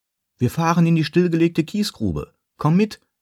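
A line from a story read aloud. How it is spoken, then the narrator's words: Calling out. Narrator (German): rief Kevin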